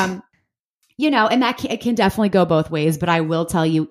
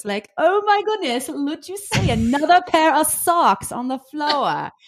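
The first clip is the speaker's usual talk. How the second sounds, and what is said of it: Sarcastic put-on British accent. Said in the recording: “if I throw like a little British accent or some sarcasm at it ... You've been doing that British sarcastic accent since I've known you ... And it's horrible.”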